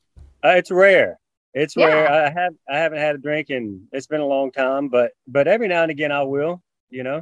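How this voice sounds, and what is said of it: Texas accent. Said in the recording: “obviously I'm a Texas guy. I'm sure you can tell by the accent”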